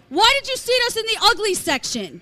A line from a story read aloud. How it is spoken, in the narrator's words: Scary screams at the top of his lungs